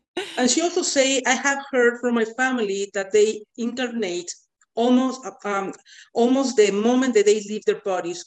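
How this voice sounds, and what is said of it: Speaks with a non-native accent. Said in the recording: “That's my accent.”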